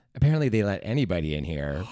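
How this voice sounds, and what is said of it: Stereotyped gay character voice. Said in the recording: “That was just like my overall gay impression I do for people, just so the listeners know it's a gay person.”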